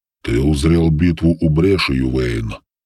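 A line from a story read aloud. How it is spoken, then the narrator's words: Slow and solemn. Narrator (Russian): медленно и торжественно произнес Белый Дьявол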